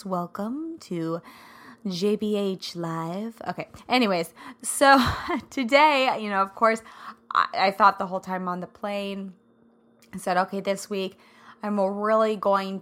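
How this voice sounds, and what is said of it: Scratchy, raspy voice. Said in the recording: “scratchy voice and all. ... I sound a little raspy, but it sounds pretty good, right? It's my radio voice.”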